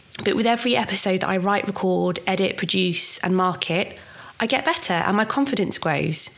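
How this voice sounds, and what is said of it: Voice sounding like a cold. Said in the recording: “I've got a cold.”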